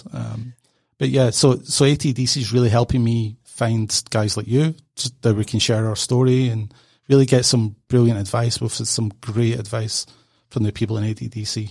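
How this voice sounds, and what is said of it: Non-local foreign accent. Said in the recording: “from the accent, hopefully you can tell I'm not from this area”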